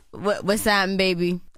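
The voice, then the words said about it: Put-on New Orleans accent. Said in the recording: “I'm trying to say it in the best New Orleans accent I can.”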